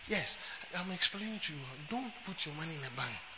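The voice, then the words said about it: Gentle, soft-spoken preaching. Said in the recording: “I'm not shouting to them. I'm speaking very gently.”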